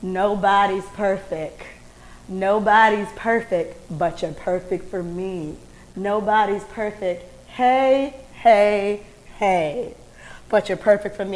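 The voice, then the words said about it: Imitates another person's voice. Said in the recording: “I'm going to do my impression of him.”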